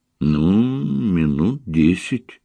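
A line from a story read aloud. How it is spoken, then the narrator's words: Uncertain. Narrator (Russian): неуверенно ответила Таня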